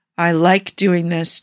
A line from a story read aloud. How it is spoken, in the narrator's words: Jafar growled